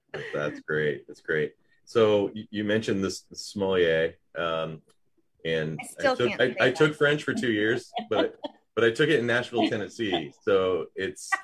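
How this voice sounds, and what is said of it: Southern US accent with twang. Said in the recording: “that has a nice little twang to it ... my Southern accent's still there”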